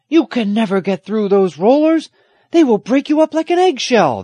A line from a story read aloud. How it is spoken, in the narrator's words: the old fisherman shouted